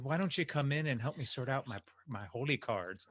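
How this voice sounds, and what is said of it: Attempted Irish accent, poorly done. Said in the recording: “Really trying to do an Irish accent. I think I'm trying to sound like her doing an Irish accent, which is worse.”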